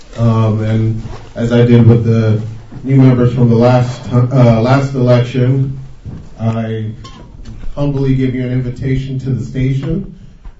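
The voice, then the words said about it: Loud speaking voice. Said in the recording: “My voice is pretty loud.”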